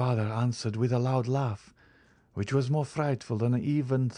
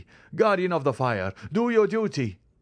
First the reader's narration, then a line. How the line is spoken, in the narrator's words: cried he